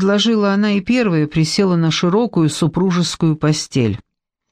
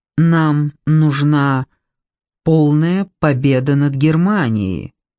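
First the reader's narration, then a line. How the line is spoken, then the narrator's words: Slow and stern. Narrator (Russian): медленно и сурово произнесла Александра Федоровна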